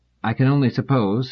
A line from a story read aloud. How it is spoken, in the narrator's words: said Selden dryly